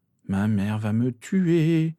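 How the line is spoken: Injured person moaning. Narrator (French): gémit l'accidenté

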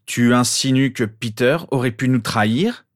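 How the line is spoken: Threatening question. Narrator (French): demanda James d'une voix menaçante

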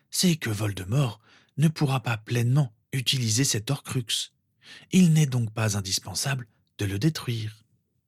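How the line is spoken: Soft, old man. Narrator (French): reprit doucement le vieil homme

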